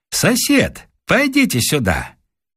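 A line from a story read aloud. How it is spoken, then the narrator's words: Cheerful call. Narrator (Russian): весело звал рукой, сказав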